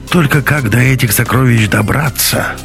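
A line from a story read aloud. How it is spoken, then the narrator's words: Dejected sigh. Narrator (Russian): сокрушенно вздохнул Беленин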